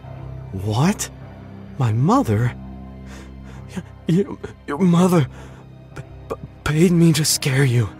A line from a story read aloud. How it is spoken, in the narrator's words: he sputtered